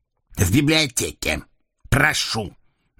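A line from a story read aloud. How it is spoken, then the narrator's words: Loud, deliberate, contemptuous. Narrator (Russian): Нарочито разделяя слова, громко выговорил он, презрительно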